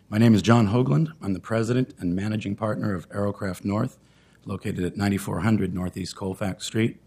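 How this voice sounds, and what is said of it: Voice in poor condition. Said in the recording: “excuse my voice.”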